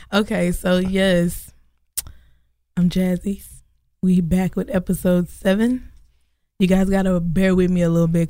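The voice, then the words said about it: Voice cutting in and out. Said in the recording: “my voice is cutting in and out again”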